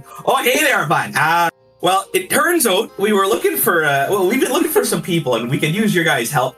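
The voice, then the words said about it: Put-on vaguely Midwestern accent. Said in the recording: “the elven accent is vaguely Midwestern”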